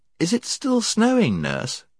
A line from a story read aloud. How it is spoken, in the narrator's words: she asked sleepily